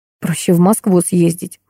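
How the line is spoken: Mumbled. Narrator (Russian): пробормотала я

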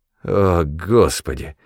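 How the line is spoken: Grumble. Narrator (Russian): проворчал Люк

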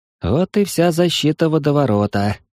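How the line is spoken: Sighing. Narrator (Russian): вздохнул Юринарий

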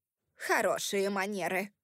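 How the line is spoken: Snort. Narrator (Russian): фыркнула Кэрол

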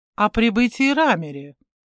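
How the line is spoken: Laughing interruption. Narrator (Russian): перебил смеясь профессор

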